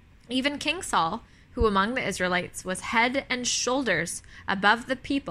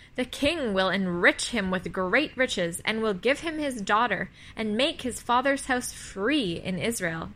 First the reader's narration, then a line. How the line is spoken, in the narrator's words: they said